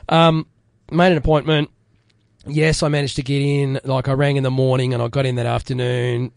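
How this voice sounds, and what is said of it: Hoarse voice. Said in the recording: “You can probably hear that I'm still a bit hoarse.”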